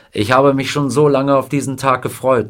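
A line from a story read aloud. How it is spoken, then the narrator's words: Plain. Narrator (German): sagte er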